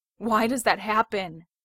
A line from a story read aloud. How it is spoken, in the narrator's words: He gasps, heaving like he's run a marathon